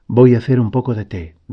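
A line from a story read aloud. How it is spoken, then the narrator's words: Plain. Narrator (Spanish): dijo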